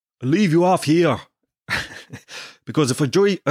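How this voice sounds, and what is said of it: Poor put-on Dublin accent. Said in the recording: “he's Dublin accent ... that's the worst Dublin accent ever ... Why do I sound South African?”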